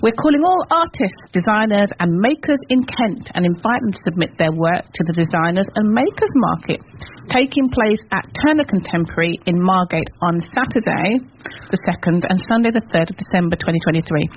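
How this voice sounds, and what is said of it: Formal newsreader-style journalist voice. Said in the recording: “I can say this in my best journalism voice”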